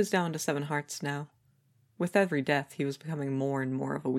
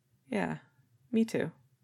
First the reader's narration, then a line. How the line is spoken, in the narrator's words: Branzy said quietly